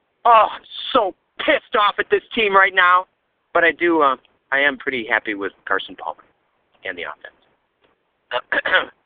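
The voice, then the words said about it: Yelling angrily. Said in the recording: “I'm yelling in my car. People are looking at me”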